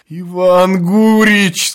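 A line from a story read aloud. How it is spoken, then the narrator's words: Tearful whining voice. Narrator (Russian): сказал плачущим голосом председатель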